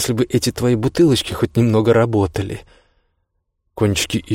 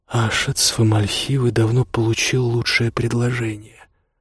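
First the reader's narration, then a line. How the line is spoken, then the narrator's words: Hoarse. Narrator (Russian): хрипло сказала Камелли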